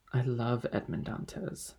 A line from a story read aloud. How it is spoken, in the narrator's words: the young girl calmly replied